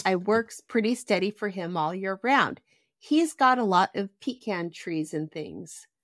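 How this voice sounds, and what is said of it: Reads in a character's dialect voice. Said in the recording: “this is going to be so tough for me to speak the Tom Robinson way ... Go back to your Tom Robinson voice.”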